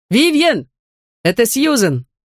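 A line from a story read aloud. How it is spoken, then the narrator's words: Shouted. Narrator (Russian): крикнул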